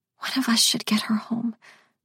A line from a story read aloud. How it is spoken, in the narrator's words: Marissa whispered to Skip